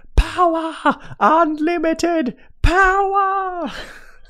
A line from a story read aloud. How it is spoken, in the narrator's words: he screamed